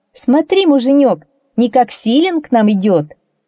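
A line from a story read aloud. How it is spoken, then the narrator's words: Woman laughing. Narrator (Russian): женщина засмеялась, сказала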